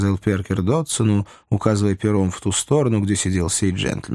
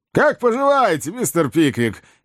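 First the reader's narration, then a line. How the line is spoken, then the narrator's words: Loud greeting. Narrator (Russian): громко приветствовал его Додсон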